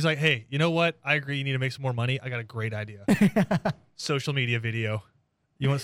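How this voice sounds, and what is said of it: Usual voice. Nothing is said of it.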